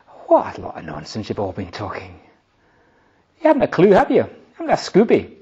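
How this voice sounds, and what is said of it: Put-on Glasgow accent. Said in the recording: “That's him wearing a Glasgow accent.”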